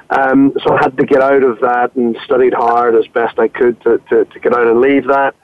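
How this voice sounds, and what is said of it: Northern Irish accent. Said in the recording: “I'm not English, as you can probably tell from my accent. So I grew up in Belfast in Ireland”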